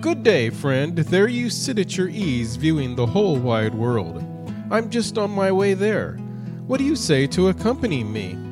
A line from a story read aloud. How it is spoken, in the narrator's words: The little tailor, greeting him cheerfully, said